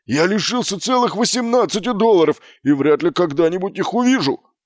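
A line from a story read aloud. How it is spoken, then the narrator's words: Barked. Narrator (Russian): рявкнул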